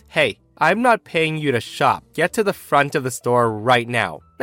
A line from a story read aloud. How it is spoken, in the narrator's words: a snarling man's face, he says